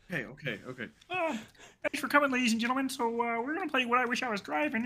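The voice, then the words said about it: Cartoon frog puppet character voice. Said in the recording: “doing the Kermit voice”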